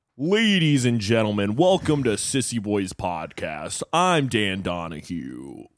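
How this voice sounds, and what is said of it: Exaggerated masculine impression of co-host. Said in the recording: “your impression of me ... So much more masculine than I actually am.”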